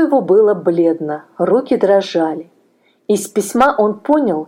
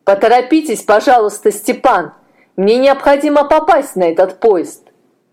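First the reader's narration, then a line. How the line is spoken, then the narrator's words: Engineer shouting after someone. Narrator (Russian): крикнул инженер удалявшемуся молодому человеку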